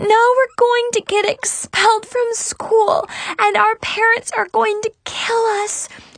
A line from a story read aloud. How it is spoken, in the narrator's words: she shrieked hysterically